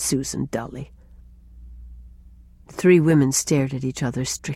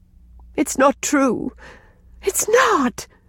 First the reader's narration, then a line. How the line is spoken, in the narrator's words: gasped Rilla